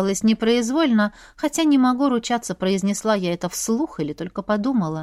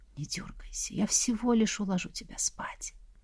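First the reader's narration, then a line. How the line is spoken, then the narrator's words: Whisper. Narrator (Russian): демон еще и прошептал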